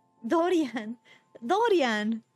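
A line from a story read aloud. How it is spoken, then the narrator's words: Exclamation. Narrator (Spanish): exclamó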